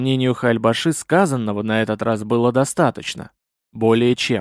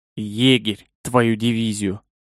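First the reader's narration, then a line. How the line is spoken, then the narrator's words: Muffled growl. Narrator (Russian): Глухо рыкнул тот еще фарш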